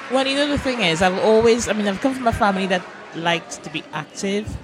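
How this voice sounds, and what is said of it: Trinidadian accent. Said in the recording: “Trinidad. that accent. You can hear it.”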